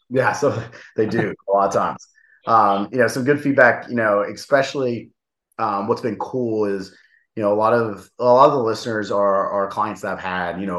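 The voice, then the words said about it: Appalachian accent with a twang. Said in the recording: “People can understand my Appalachia a little bit, right? Still got some twang coming out from, you know, the West Virginia days.”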